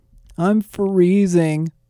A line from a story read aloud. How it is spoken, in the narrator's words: Flynn whined